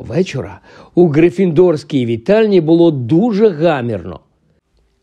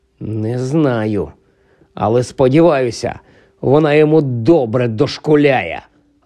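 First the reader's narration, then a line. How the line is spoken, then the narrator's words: Angry hiss. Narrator (Ukrainian): розлючено просичав Рон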